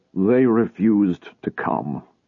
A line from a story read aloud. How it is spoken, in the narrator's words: he said in a dull voice